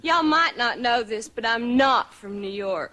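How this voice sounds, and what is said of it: Exaggerated, overdone Texas accent. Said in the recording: “the most ridiculous accent I've ever heard ... the most ludicrous overselling of a Texas accent”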